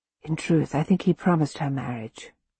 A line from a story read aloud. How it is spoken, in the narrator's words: I whisper